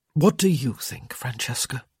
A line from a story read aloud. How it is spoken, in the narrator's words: he murmured